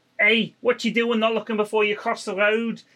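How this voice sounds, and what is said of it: Put-on Scouse accent, Kevin Keegan. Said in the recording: “Kevin Keegan or someone when I was a kid ... I can't do a Scouse accent ... That was pretty good, though. It's better than mine.”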